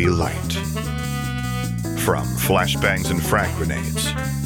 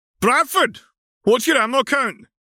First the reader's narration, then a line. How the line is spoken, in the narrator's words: Sergeant Ulyssa barked